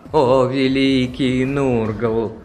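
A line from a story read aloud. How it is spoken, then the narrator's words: Chant over droning coven. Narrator (Russian): произнес нараспев чудотворец, перекрывая монотонное гудение своего ковена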